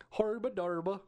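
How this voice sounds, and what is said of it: Put-on Maryland accent. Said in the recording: “a Maryland accent”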